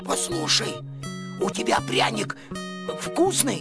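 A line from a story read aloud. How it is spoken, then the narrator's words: Sudden hoarse rasp. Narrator (Russian): Костя вдруг прохрипел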